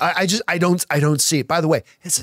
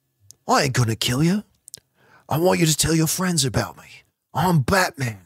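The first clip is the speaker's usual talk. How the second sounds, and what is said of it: Poor impression of a gruff action-star voice. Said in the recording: “terrible Jason Statham impersonation.”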